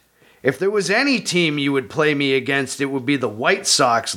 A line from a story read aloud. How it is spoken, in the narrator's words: Lynns said